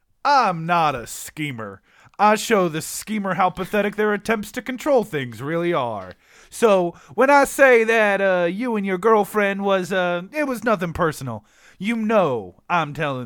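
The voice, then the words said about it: Put-on accent, character read. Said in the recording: “Try a different accent. ... Okay, I love this. I need you to crank the accent up a little bit higher.”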